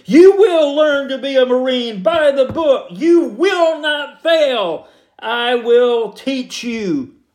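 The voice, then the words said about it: Impression of Gunnery Sergeant Hartman. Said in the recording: “Marine Senior Drill Instructor Gunnery Sergeant Hartman said in Full Metal Jacket ... That's pretty good imitation, I think.”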